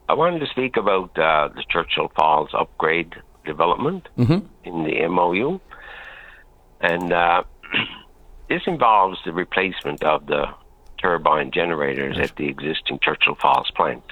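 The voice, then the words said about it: Slightly cracked voice. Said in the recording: “my voice is a little bit cracked”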